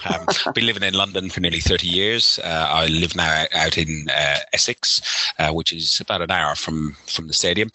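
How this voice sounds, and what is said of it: Irish accent, somewhat mixed. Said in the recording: “I'm originally from Ireland. If you can hear from my accent, it's a little bit messed up.”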